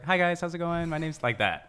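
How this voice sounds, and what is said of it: Upbeat customer service voice. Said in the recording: “I have like a customer service voice... You can tell the difference... my voice just changed like that”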